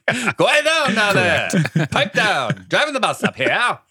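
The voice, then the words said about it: Put-on 1940s blowsy accent. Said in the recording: “What was that accent? ... That's my 1940s blowsy accent.”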